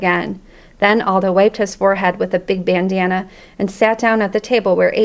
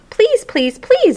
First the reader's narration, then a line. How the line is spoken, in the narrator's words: I squeaked